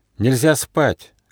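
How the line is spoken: Shouted. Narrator (Russian): крикнул монах

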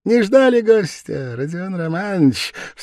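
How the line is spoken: Exclaimed laughing. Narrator (Russian): вскричал, смеясь, Порфирий Петрович

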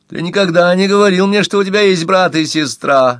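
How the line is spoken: Shrill offended voice. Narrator (Russian): визгливым обиженным голосом ответила Тереза

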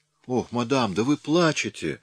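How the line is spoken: Cry out. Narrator (Russian): вскрикнула она

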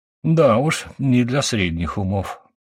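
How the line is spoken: Sighing. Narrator (Russian): вздохнул

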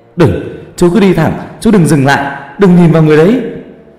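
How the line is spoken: Sudden shout. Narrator (Vietnamese): thằng Dũng bỗng hét lên

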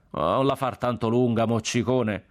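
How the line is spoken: Shout from the crowd. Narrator (Italian): gridò uno dalla folla

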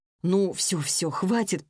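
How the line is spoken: Mumbling. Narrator (Russian): пробормотала я

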